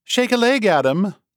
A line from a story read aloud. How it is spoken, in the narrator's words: a female voice behind them called out